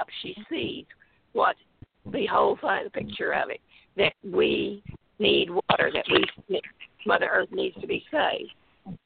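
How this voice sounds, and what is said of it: Strained, failing voice. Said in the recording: “my voice is starting to go ... My voice is starting to go, sweetheart.”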